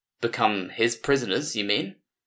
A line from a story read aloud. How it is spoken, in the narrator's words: Solcross said sullenly